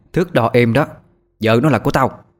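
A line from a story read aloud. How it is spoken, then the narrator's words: Shout from above. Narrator (Vietnamese): một tiếng hét vang lên từ trên cao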